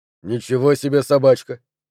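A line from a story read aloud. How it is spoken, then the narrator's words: Muttering. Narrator (Russian): пробормотал я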